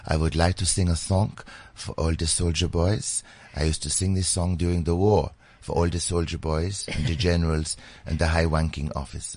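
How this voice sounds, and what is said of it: Slow German-accented Marlene Dietrich impression. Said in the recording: “Marlene you do with German. ... German, yeah. German. ... she spoke very, very slow. And she rolled her R's.”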